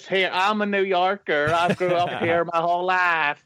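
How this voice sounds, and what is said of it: Mock unconvincing New York accent. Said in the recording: “her accent doesn't make sense ... She talks like this.”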